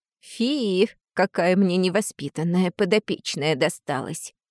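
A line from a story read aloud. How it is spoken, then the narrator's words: Hissed by a lizard. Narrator (Russian): прошипела ящерица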